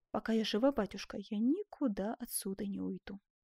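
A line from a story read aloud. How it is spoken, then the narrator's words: Calm reply. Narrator (Russian): спокойно ответила Антония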